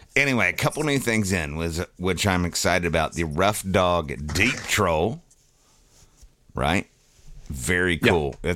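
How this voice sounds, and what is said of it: Deep, congested voice. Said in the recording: “my sinuses are killing me, dude. My voice is like four octaves down.”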